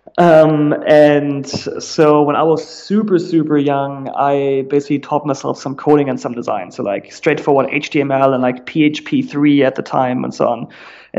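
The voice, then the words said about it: German accent. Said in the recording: “I'm originally German, like you very likely will realize in a second, just based off my accent”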